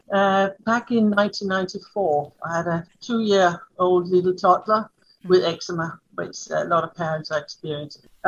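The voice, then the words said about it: Danish accent. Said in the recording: “as you can hear my accent. ... I'm Danish.”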